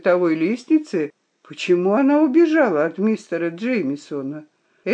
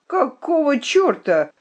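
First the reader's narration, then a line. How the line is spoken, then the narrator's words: Indignant cry. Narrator (Russian): вскрикнул он возмущенно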